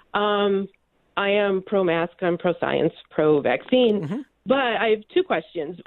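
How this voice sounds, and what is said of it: Sick, congested-sounding voice. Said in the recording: “Maybe you can hear in my voice. I'm just recovering from a cold”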